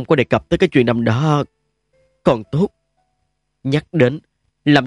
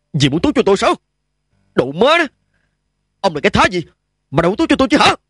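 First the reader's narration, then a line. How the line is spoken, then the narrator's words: Barking shout. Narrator (Vietnamese): quát lên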